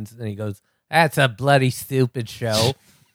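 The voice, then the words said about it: Exaggerated Australian accent. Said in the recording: “my great Australian accent that sounds like Cary Grant doing a cowboy”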